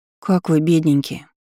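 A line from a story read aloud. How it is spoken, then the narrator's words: Upset voice. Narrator (Russian): спросила у них расстроенным голосом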